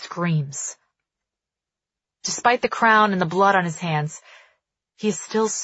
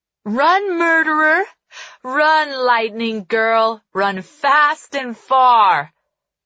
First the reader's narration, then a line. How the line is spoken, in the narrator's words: laughter echoes off the crumbling ruins, haunting